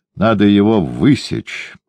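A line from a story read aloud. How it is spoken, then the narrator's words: Tired. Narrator (Russian): устало сказал Дон Педро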